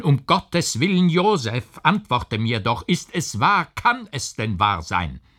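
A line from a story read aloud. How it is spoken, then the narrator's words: Uncle crying out. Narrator (German): rief der Onkel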